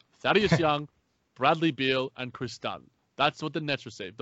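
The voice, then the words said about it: Australian accent. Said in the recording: “I'll try not to speak too fast with my Australian accent.”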